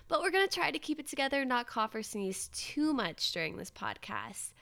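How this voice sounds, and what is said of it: Voice sounds sick, under the weather. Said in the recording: “I'm a little under the weather, and I'm afraid that you might be able to hear it in my voice”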